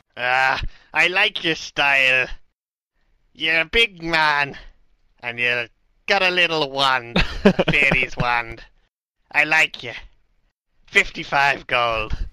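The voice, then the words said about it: Strange Irish-Scottish-Welsh pirate accent. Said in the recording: “the man with a strange Irish, Scottish, Welsh accent ... Pirate.”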